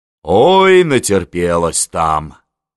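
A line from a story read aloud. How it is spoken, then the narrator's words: Sighing. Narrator (Russian): вздохнула Анна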